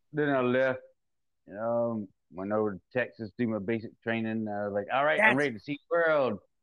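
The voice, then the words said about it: Mississippi regional accent. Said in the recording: “So where's this accent from? ... The accent picked up. I grew up down in Mississippi.”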